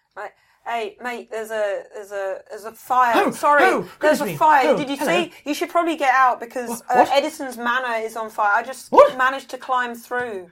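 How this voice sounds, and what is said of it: Put-on Australian accent. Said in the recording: “Somehow sound Australian. I don't know why.”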